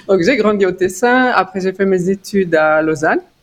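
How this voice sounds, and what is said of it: Slight Italian-Swiss accent in French. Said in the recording (French): “ils entendent un tout petit accent ... je suis d'origine tessinoise avec une maman grisonne”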